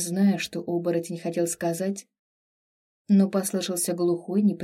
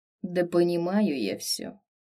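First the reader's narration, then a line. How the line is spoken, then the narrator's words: Grumbling heavy exhale. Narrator (Russian): проворчал с шумным выдохом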